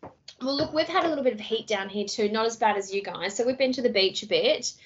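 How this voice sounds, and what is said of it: Usual voice. Nothing is said of it.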